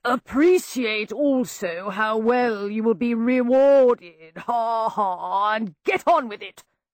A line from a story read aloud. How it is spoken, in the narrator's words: bellowed an unmistakable voice